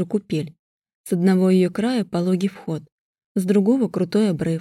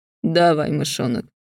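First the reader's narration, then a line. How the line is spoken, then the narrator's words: Husky purring voice. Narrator (Russian): Виар говорит хрипловато, как разомлевший на солнце кот, и в голосе сквозит какое-то подобие кошачьего мурлыканья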